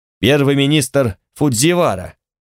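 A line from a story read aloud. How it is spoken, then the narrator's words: Two barking together. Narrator (Russian): гаркнули оба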